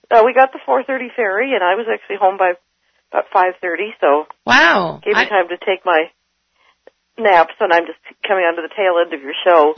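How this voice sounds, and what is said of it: Hoarse, fading voice. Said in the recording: “you're losing your voice.”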